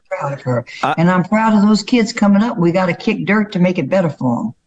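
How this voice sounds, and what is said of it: Southern American accent. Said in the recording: “your southern accent. When I close my eyes, I hear my mom ... I'm getting more southern”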